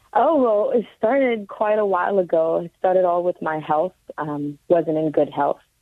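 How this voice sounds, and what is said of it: Raspy, strained voice. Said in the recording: “Excuse the raspy voice. I'm still recuperating from City Field. It was a big crowd and a lot of yelling.”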